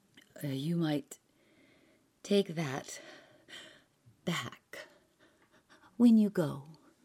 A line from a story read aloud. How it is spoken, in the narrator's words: she whispered